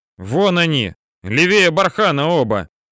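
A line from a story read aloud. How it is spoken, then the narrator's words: Shout. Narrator (Russian): кричал один из саперов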